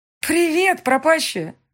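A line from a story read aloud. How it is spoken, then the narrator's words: Joyful greeting. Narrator (Russian): Радостно приветствует она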